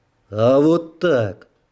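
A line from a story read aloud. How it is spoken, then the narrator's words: Angry. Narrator (Russian): зло сказал я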